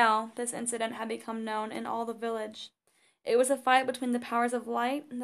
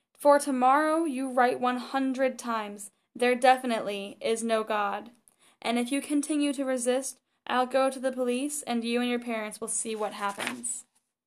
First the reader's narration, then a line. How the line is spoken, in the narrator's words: The teacher became furious, shouting